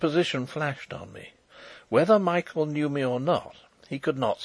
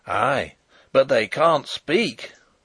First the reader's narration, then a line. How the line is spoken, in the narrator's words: roared Sapt in grim triumph